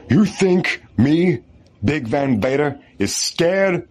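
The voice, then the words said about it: Wrestler impression with Southern accent. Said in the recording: “as Vader ... Did Vader have a Southern accent?”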